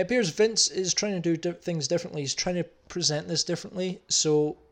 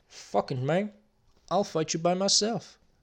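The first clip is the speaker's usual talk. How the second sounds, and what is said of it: Impression of Razor Ramon. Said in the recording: “big tough Chico Razor said ... That impression”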